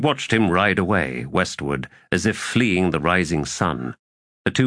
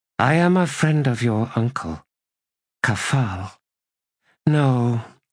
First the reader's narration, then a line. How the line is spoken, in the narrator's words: added wearily